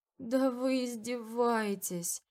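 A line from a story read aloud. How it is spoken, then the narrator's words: Inner groan. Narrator (Russian): Застонало мое подсознание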